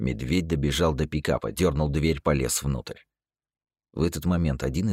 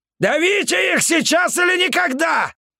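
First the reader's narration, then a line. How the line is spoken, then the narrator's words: Yelling. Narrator (Russian): заорал Петрович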